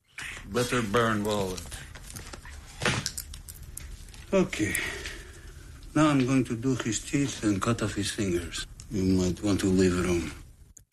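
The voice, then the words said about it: Russian accent in English. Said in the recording (Danish): “for ligesom at få den perfekte russiske accent ... Er det russisk? ... Ja, altså til en vis grad.”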